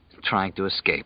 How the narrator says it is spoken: Larry murmured

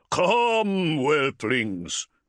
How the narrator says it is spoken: he bellowed

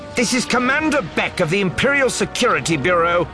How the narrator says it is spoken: the woman shouting

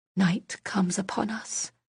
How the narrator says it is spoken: Silence whispered, choking at the words

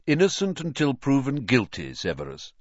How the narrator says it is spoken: he said firmly

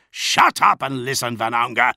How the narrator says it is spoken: Namatjira growled

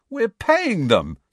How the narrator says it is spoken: said Fred indignantly

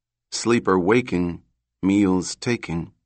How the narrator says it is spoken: she said slowly

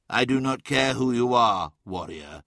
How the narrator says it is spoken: said Magnus calmly, though the undercurrent of threat was unmistakable

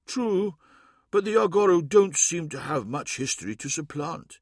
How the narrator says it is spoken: said sadly

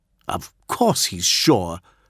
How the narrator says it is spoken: snapped Fulgrim

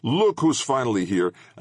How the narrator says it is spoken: a girl shouted

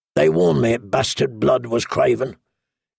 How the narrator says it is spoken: Corrin Halfhand say coldly behind him

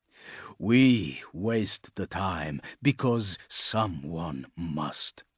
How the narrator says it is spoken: growled, low and fierce

